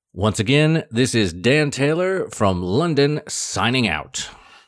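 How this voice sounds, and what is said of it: Polished radio announcer voice. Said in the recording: “amazing radio voice”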